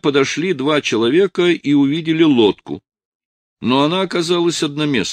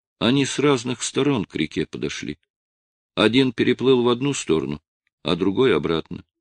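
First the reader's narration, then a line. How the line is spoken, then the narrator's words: Girl speaking quietly. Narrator (Russian): в тишине одна из девочек тихо произнесла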